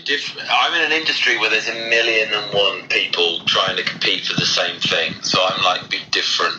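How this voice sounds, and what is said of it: British accent. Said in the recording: “you're actually just embracing the entire British thing ... be British”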